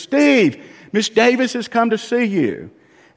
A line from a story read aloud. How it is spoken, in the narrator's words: Mom hollers down the street